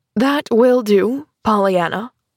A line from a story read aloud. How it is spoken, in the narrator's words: said stiffly